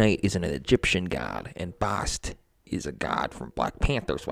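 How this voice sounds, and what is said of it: Usual voice. Nothing is said of it.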